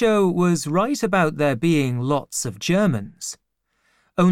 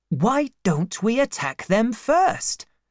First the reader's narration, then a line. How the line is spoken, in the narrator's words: Mdisho said excitedly